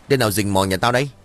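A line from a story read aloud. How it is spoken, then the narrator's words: Loud bark, old man. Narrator (Vietnamese): Miệng của ông quát lớn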